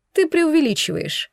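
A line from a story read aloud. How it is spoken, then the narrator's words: Sighing. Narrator (Russian): вздохнула Кара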